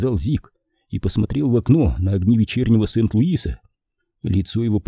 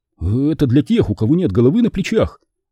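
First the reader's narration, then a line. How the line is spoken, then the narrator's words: Laughing. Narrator (Russian): засмеялся Натаниэль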